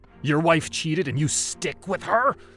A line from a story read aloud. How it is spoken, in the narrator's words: Abdi spat out a frothy spittle at me